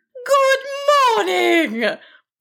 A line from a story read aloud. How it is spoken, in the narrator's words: boomed the creature